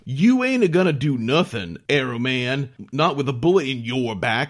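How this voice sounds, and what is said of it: Over-the-top Southern twang accent. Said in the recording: “these Southern twang accents ... these accents are so bad ... so over the top”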